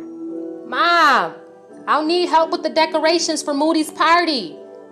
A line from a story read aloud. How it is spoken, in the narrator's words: I yelled